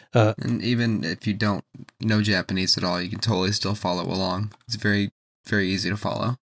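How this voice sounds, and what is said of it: Strained voice, losing it. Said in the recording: “I'm slowly losing my voice.”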